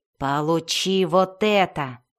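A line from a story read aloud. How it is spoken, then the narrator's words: Growled in reply. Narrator (Russian): в ответ прорычал Белвар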